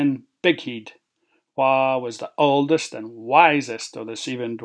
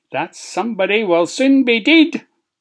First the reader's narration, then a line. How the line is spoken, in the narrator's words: roared Minger